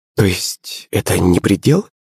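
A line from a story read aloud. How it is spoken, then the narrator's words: Muttered. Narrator (Russian): пробормотала Наталья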